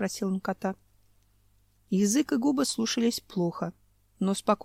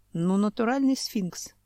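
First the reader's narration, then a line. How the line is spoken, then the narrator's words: Sighed. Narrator (Russian): вздохнул Семен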